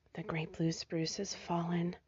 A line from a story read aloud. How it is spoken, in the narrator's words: Rosie whispered